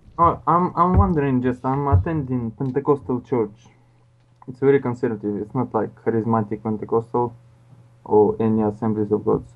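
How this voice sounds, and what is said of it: Russian accent, not British. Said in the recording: “You don't have a British accent. What's your accent? ... It isn't British. ... Russian.”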